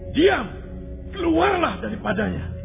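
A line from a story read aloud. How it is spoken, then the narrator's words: Stern rebuke. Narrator (Indonesian): Yesus menghardiknya, katanya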